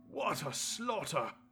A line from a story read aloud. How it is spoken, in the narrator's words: panted